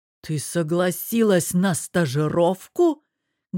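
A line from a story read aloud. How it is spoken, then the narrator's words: Husband asking. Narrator (Russian): спросил муж и, выдавил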